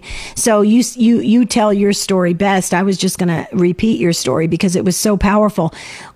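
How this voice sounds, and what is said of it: Strained voice. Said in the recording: “my voice is, as you can hear, is straining today”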